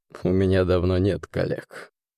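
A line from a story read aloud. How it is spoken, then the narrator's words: Grim chuckle. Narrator (Russian): мрачно хохотнул гость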